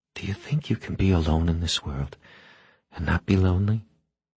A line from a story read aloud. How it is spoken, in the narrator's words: Eleanor whispered to him